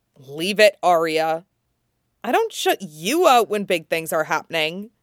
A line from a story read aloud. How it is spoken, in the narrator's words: she snaps at him